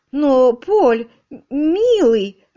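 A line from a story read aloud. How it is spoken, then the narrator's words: Timid. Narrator (Russian): робко начала Полина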